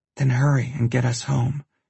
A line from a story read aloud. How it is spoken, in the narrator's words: she whispers